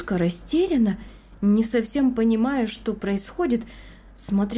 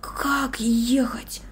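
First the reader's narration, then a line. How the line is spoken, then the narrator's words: Whisper. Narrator (Russian): прошептал он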